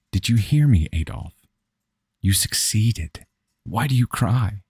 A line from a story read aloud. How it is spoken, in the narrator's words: She spoke in a tender but proud tone, like a mother trying to convince her toddler that he wasn't in trouble